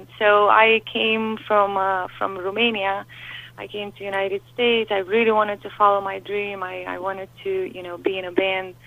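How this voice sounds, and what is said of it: Romanian-accented English. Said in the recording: “As you can hear, I have an accent.”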